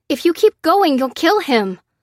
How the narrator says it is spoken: begged Lucy

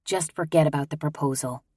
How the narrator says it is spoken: I whispered

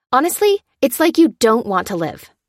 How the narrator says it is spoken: snapped Lucy

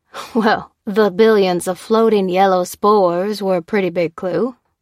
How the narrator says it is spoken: laughed Kristen

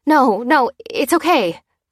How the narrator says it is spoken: quavered Lucy

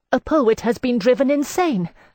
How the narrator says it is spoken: cried

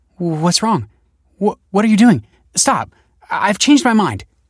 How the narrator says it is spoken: stammered Michael

